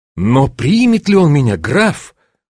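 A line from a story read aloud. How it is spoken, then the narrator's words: Uncertain question. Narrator (Russian): спросил я неуверенно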